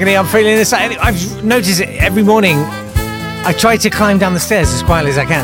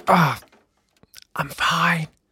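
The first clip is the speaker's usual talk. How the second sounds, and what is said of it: Whispered words. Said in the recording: “whisper, I'm fine, at the end”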